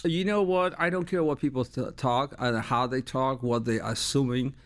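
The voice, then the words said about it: Noticeable foreign accent. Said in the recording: “you obviously have a little bit of an accent”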